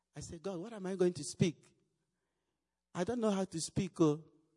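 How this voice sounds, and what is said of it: Heavy non-native English accent. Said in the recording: “I have big accent. Sometimes when I speak, what did he say? What did he say?”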